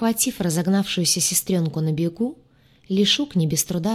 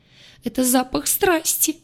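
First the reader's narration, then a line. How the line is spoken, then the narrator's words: Sobbing. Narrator (Russian): разрыдалась лаборантка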